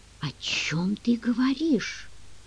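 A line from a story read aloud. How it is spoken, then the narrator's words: Whispered. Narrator (Russian): прошептал он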